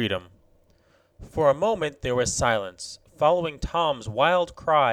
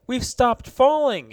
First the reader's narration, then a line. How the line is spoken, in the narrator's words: he cried